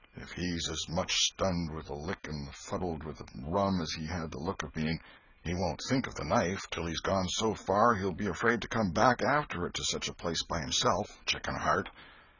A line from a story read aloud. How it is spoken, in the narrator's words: He muttered